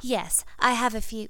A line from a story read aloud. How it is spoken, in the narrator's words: Ginny said nervously